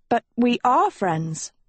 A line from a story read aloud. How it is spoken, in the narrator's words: Agatha sputtered